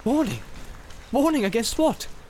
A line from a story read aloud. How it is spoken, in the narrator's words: said Boromir sharply